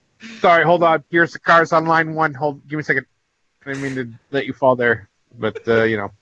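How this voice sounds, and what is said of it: Accurate Dave Filoni impression. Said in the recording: “That was dead on Dave Filoni impersonation.”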